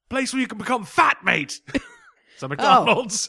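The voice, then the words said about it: Bad put-on English accent. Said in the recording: “That was the worst English accent in human history.”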